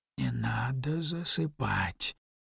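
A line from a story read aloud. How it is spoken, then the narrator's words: Mutter. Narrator (Russian): пробормотал Мэро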